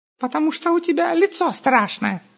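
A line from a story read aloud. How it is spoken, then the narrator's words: Joking, laughing smugly. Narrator (Russian): сострил Густав и захохотал, крайне довольный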